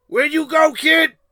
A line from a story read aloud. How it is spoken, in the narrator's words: He shouted again